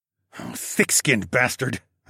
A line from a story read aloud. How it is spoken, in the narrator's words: I hissed